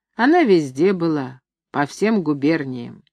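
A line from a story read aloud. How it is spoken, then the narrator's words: Confident bass, beggar. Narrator (Russian): нищий говорит басом уверенно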